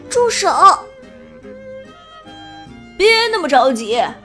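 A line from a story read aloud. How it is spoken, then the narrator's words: Shouting. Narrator (Chinese): 裴西叫道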